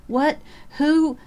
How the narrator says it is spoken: Lydia Carr gasped, struggling into a sitting position, only to fall back as nausea swept over her

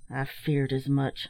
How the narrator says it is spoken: muttered the captain

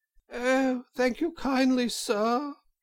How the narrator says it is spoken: said Toad in a feeble voice

